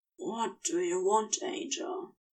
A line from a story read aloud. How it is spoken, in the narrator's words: Crowley said, his voice husky from sex and longing